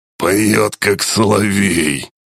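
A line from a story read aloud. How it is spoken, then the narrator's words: Smirking grunt, orc. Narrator (Russian): хмыкнул орк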